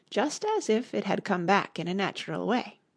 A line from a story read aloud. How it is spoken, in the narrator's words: Alice quietly said